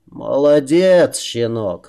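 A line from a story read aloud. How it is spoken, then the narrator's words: Guttural, choking with laughter. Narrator (Russian): гортанным голосом, давясь смехом, произнес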